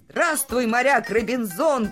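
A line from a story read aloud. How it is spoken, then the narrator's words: Shouted from a ship. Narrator (Russian): крикнул доктор Айболит с корабля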